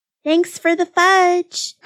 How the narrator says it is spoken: Honey yelled after her

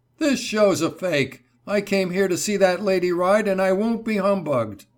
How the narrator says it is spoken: He shouted

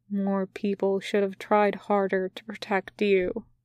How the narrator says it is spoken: he says quietly

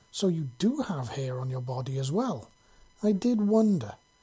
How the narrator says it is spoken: she said in a curious voice

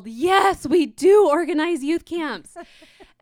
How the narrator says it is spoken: both Hans and I turned and yelled

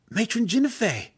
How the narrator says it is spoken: Alton gasped again

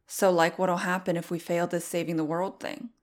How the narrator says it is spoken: said Frost

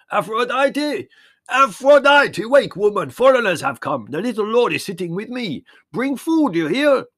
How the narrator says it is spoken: he roared

